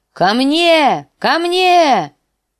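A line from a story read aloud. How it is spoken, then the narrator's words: Shouted. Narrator (Russian): закричал лютоволк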